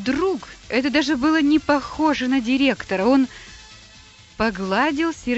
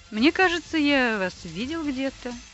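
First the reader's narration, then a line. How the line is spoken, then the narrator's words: Indifferent tone. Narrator (Russian): ответил безразличным тоном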